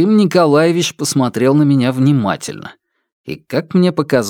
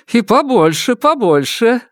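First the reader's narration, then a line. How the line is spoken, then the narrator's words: Laughing speech. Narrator (Russian): сказала мама Люба, смеясь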